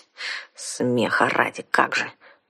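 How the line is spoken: Embarrassed unconvinced grumble. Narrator (Russian): проворчала смущенная, но ничуть не убежденная девушка

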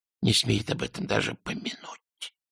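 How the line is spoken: Whisper. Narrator (Russian): прошептал Альберт

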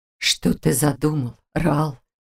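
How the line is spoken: Hoarse drawl. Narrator (Russian): осипшим голосом протянул Всевышний

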